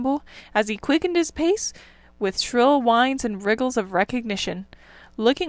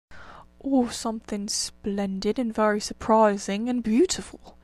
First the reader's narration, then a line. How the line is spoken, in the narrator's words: murmured the Rat